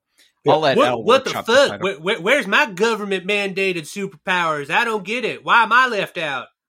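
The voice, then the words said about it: Exaggerated Southern US accent. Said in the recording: “a dumb conservative accent ... a Southern accent”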